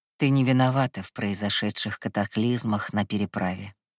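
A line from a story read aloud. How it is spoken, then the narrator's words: Calm speech. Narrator (Russian): спокойно заговорил Кай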